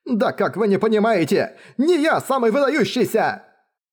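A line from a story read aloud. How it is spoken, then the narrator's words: Shouting. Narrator (Russian): кричал Джоу Декунь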